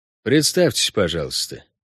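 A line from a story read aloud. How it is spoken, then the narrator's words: Flat, toneless. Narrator (Russian): бесцветным тоном предложил охранник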